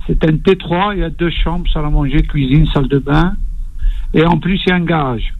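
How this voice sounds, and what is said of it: Toulouse regional French accent. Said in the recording (French): “d'entendre votre accent... l'accent toulousain”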